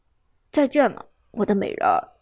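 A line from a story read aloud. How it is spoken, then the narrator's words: Reluctant, low voice. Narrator (Chinese): 苏哲虽然恋恋不舍，低声道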